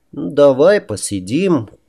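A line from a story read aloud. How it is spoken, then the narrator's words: Sad. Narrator (Russian): как-то печально произнес он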